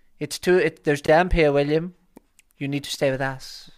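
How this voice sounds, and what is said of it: Imitates another person's voice. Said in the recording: “It's a really bad Kieran impression.”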